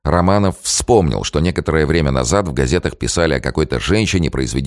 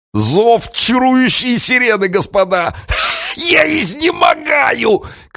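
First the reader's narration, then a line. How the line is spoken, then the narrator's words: Playful shout. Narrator (Russian): крикнул остроумец, давеча пошутивший про амазонок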